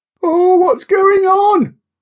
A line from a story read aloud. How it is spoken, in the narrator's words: Kira asked nervously